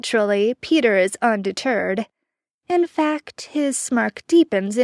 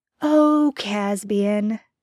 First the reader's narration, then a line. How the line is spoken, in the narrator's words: he chuckles